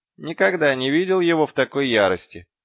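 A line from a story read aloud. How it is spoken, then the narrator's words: Snorting. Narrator (Russian): хмыкнул Гаспод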